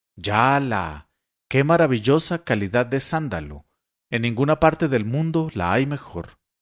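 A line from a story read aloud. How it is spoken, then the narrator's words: Admiring exclamations. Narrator (Spanish): exclamaciones de admiración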